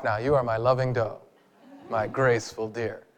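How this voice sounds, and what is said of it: Put-on sexy voice. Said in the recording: “That's my voice. That's my sexy voice.”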